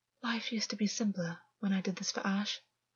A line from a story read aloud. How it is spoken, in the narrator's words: August said softly